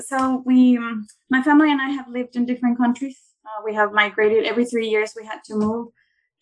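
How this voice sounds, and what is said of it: Venezuelan accent in English. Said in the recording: “I'm from Venezuela. ... I've always debated with having an accent when going live ... It's beautiful accent.”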